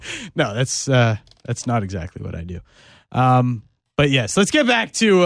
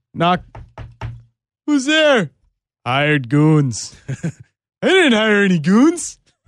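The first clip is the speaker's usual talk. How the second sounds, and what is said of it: Homer Simpson impression. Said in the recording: “my Homer Simpson impression”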